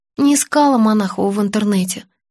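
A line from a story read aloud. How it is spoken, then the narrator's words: Sighing. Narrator (Russian): вздохнула я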